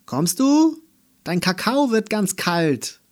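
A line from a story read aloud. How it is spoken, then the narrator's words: Mother calling from another room. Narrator (German): rief Mama aus der Küche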